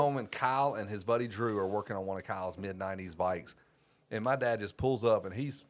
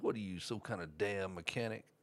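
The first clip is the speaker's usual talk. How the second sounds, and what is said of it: Exaggerated Southern US accent. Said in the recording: “Love the Southern accent, though. ... Froghorn Leghorn.”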